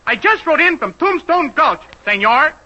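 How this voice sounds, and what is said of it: Put-on Spanish accent. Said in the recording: “how about if I use a dialect, F.A.? I'm great on Spanish. ... let's have that same line in Spanish dialect.”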